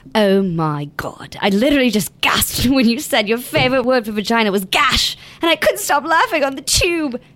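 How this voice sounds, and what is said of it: Attempted British accent. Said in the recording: “read it in a British accent”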